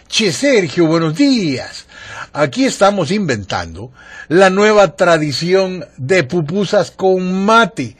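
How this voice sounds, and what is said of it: Put-on Argentine accent. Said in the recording (Spanish): “ahí le tengo que poner acento”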